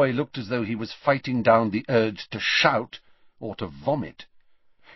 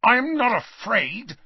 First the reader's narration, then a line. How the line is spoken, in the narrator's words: snarled Malfoy